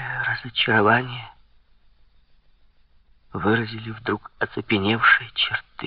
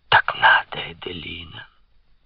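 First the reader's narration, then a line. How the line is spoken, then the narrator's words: Whisper in ear. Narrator (Russian): Шепнул ей на ухо король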